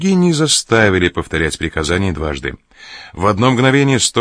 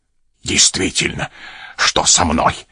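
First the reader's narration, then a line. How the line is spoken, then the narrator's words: Grumbling. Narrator (Russian): проворчал трактирщик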